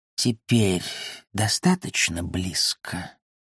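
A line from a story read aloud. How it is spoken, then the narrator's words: Hissed, cat. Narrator (Russian): прошипел кот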